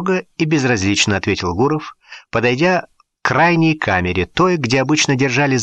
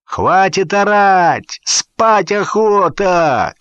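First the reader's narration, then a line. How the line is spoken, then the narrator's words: Shouted from cell. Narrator (Russian): крикнул кто-то из камеры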